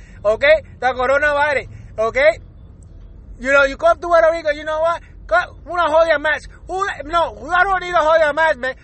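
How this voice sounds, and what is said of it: Heavy put-on Puerto Rican accent. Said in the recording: “I'm going to throw in some heavy accent ... my Puerto Rican in me is gonna be out, and my heavy accent might come out”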